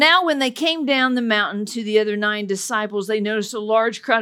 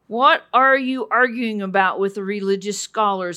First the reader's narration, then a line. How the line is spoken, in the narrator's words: asked